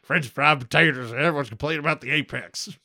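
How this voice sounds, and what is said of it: Sling Blade-like impression, Aussie-sounding. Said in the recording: “He sounds like Sling Blade... With Australian accent... was I doing an Aussie there?”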